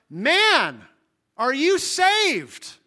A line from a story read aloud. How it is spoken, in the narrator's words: He called out